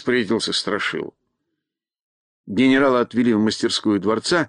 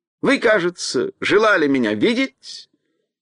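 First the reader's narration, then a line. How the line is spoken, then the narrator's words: Clear, pleasant-voiced question. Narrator (Russian): звонким приятным голосом спросил он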